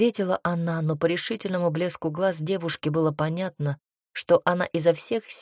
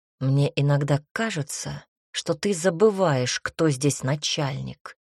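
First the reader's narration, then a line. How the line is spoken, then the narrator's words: Hissed. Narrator (Russian): прошипел Марантино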